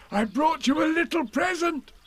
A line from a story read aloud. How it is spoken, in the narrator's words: said Pooh excitedly